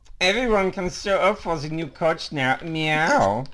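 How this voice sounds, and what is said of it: Put-on German accent. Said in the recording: “Can you do meow in like a German accent? ... That was great.”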